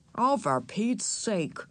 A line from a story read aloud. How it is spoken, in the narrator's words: muttered Henry